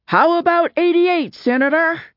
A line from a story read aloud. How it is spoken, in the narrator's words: Someone in the crowd lining the street shouted out